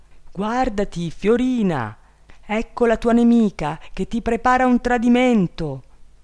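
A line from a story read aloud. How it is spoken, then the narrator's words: Bird shouting a warning. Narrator (Italian): l'uccello turchino ... gridò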